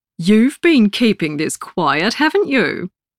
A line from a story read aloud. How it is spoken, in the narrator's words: Linda exclaims